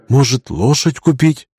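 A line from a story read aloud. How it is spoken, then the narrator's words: Whispered suggestion. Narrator (Russian): шепотом предложила Лина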